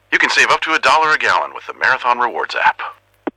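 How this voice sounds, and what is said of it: Impression of the Marathon bald eagle. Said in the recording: “could do an impression of me ... That last one was pretty good.”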